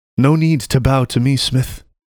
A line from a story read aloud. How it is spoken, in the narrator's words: the woman smiled warmly